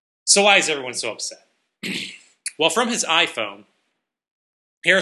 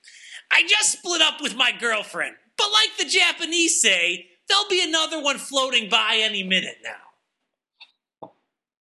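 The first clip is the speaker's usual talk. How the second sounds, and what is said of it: Imitates another person's voice. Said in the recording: “I should do these like Gilbert's voice, since I do such a great Gilbert Gottfried impression.”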